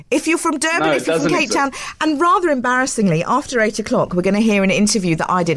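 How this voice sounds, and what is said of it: Mixed Johannesburg South African English accent. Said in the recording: “my accent sometimes is a bit strange, but I've got this kind of bastardised Johannesburg English ... I picked up this weird accent”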